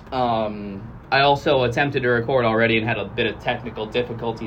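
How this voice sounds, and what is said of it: Worn-out, strained voice. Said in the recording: “my voice is already worn out ... Hopefully you can stand my voice”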